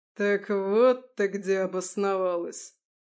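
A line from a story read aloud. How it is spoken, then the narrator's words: Contemptuous, through teeth. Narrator (Russian): Процедил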